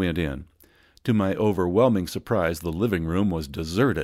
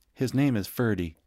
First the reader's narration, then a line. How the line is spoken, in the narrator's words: in a grave murmur